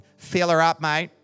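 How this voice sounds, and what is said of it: Broad Australian accent. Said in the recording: “in a broad Aussie accent”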